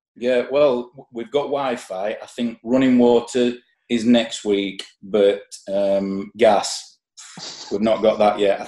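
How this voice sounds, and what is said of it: Thick regional accent. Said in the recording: “Subtitles has already come in as well for my accent”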